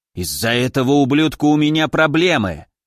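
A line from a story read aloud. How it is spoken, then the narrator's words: Quick hiss. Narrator (Russian): сразу же прошипел целитель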